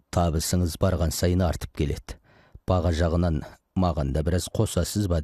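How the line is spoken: Plain. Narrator (Kazakh): деді

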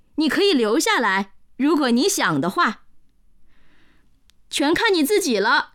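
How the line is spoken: Mocking. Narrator (Chinese): 内德嘲笑说

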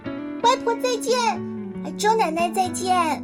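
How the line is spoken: Loud child. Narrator (Chinese): 小乐大声的说

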